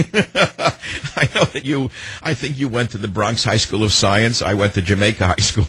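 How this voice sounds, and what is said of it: New York accent. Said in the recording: “you're originally from New York ... I think I recognize an accent ... You can tell by the accent.”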